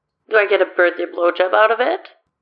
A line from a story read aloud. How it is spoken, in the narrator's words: Danny laughs